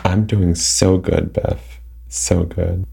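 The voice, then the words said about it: Sarcastic delivery. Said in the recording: “which one was sarcasm? ... All of it.”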